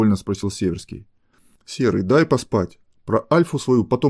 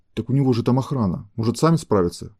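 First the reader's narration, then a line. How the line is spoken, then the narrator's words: Frightened. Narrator (Russian): испуганно проговорил Северский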